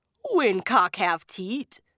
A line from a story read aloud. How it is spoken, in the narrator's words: the Jab man scoffed